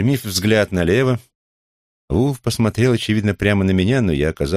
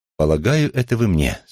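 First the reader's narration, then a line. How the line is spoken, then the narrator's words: Plain. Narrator (Russian): сказала она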